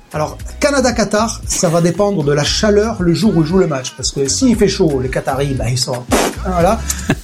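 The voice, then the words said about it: Southwestern French Gers accent. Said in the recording (French): “qu'est-ce que j'aime son accent ... L'accent toulousain ... Ah non, il est du Gers”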